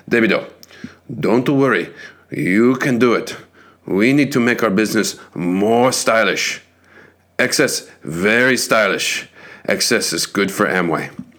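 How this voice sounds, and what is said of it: Put-on Japanese accent. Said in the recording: “I'll try to do this in Japanese, my favorite Japanese accent.”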